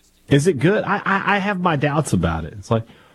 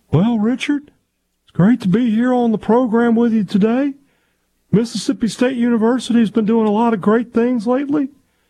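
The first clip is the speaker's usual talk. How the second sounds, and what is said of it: Imitates another person's voice. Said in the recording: “Requesting a Mark Keenum impersonation from you, says it's really good and it's really funny.”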